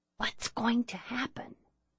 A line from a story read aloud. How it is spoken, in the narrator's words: whispered